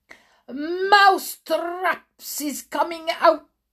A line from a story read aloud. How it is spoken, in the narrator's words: She raised her voice louder than ever and shouted